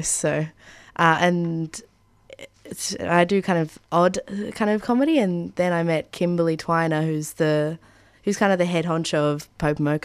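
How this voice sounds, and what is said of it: Nasal, congested voice. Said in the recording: “I've also got a bit of a cold, so my voice sounds kind of nasally today.”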